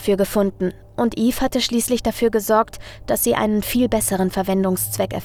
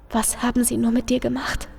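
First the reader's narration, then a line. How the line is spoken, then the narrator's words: Whispered into ear. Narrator (German): flüsterte Eve Charles ins Ohr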